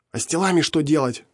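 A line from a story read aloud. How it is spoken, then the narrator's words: Indignant whisper. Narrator (Russian): возмущенно зашептал он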